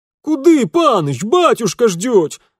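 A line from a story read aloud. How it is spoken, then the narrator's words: Former servant yelling after. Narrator (Russian): завопил вслед бывший лакей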